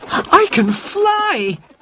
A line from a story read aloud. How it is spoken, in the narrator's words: cried